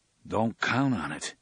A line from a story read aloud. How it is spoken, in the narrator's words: Eddie said gloomily